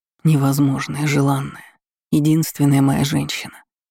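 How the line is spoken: Breathed out. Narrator (Russian): выдохнул он

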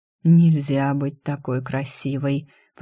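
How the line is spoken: Whispered. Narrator (Russian): прошептал

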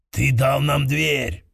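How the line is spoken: Growled. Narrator (Russian): прорычал Торрим

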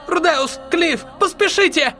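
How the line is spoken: Shout. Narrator (Russian): крикнула Элиналис

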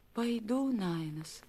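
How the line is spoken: Barely audible reply. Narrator (Russian): чуть слышно ответила Некия

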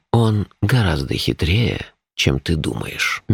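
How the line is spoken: Gentle objection. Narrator (Russian): мягко возразил Шурф

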